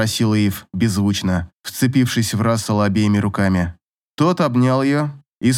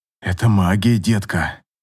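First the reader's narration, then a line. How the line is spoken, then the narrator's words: Hoarse, forced out. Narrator (Russian): сипло выдавил он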